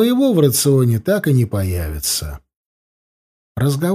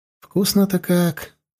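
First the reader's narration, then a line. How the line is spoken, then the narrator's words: Saccharine sweet voice. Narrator (Russian): приторно-сладким голосом сказал я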